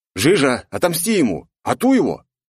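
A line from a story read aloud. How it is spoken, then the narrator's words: Shout. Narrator (Russian): крикнул я Котеке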